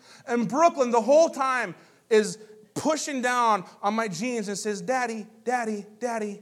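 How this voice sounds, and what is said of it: Usual voice. Nothing is said of it.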